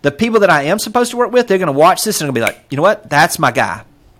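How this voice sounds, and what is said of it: Fast-talking speaker with an accent. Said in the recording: “I know my accent. I talk a little fast.”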